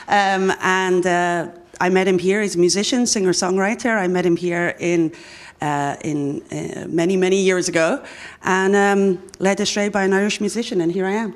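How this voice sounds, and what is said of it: Mixed-up accent. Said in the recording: “what's going on with your accent ... It's a messed up one at this point”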